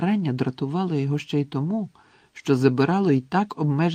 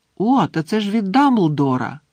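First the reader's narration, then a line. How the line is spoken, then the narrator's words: Excited exclamation. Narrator (Ukrainian): схвильовано вигукнув Гаррі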